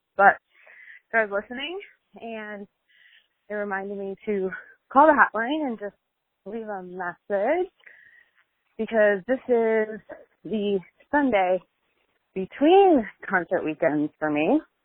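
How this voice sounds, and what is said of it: Speaking out of breath. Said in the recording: “I'm sorry if I'm out of breath because I'm walking the dog”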